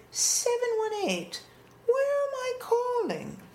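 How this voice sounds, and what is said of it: Deliberately bad put-on English accent. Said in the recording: “It's my very bad English accent.”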